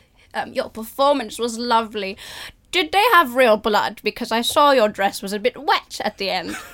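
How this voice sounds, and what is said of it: Little old English lady voice. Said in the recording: “excellent little old English lady accent”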